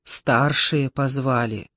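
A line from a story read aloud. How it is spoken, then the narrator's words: Quiet and meaningful. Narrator (Russian): тихо и значительно сообщила Маша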